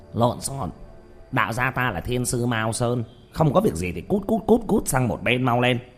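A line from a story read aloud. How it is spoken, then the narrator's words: Startled shout. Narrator (Vietnamese): Lão đạo sĩ chợt ngẩn ra, quát lên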